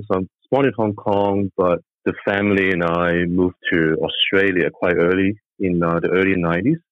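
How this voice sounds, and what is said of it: Hong Kong accent. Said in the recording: “I was born in Hong Kong, as some of you could tell from the accent”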